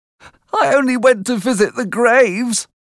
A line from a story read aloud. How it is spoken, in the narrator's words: cried